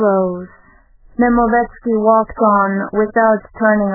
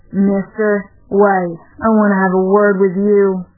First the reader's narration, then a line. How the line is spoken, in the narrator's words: said the tall man in a thick, bass voice